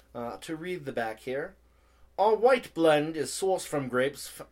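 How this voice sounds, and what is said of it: Reads aloud in put-on accent. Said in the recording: “Why am I reading it in an accent again? Force of habit.”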